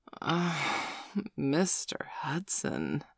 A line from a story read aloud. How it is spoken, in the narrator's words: she moaned